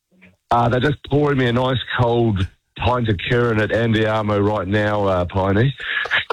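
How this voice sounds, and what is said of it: Hoarse, nearly lost voice. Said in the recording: “I've just lost my voice, mate. ... You are quite within your rights to lose your voice”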